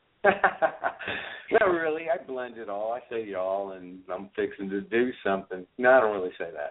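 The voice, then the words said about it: New York accent. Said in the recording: “you've got a New York accent”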